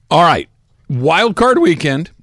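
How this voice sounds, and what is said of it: Voice cracks mid-phrase. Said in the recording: “my voice cracked.”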